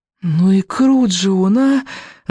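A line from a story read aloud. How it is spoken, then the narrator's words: Breathless exclamation. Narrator (Russian): выдохнула Камикадзе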